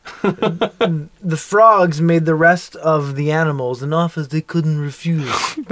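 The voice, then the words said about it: Deliberately bad Godfather impression. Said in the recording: “Frogs is basically the equivalent of the Godfather ... I wanted to use a really bad impression.”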